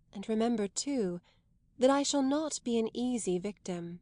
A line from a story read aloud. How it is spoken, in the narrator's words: more softly, as if to help him leave her